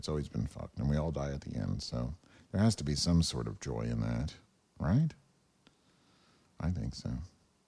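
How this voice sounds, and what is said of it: Voice getting progressively softer. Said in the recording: “my voice keeps getting softer and softer and softer and softer.”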